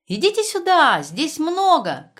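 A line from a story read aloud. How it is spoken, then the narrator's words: Shout. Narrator (Russian): крикнула она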